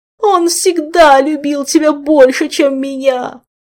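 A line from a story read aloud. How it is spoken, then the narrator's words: Sudden howl. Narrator (Russian): Неожиданно взвыл Нимшаст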